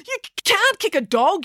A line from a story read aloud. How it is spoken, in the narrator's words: yelled Joe